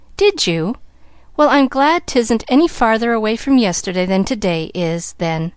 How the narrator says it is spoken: laughed Pollyanna

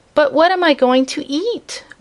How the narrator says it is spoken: wailed the kitten

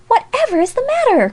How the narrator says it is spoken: cried Alexia

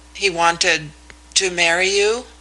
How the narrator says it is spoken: faltered

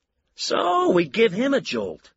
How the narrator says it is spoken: Lou said brightly

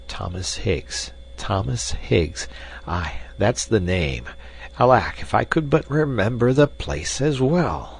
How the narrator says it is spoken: Raff, lost in thought, was repeating under his breath

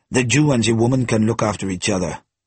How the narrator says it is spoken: he added roughly

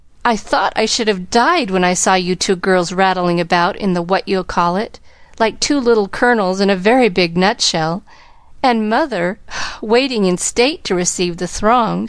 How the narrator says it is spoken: sighed Joe, quite spent with laughter

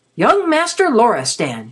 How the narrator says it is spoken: she called out authoritatively

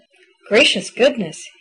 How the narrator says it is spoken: he muttered

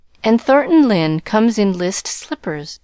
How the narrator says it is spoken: said Tarling sarcastically

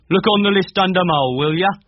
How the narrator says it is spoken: the first general shouted

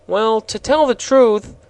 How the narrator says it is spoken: said in a perplexed tone of voice

